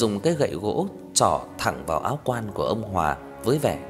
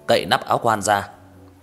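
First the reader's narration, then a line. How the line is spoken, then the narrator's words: Sudden loud shout. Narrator (Vietnamese): đột nhiên thầy Thích Quang Nhiên quát lớn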